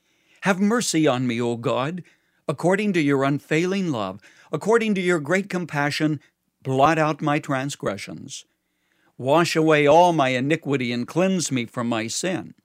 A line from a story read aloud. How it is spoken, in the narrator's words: David who cried out